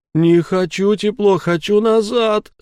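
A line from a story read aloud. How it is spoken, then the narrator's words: Whining fat man. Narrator (Russian): хныкал толстяк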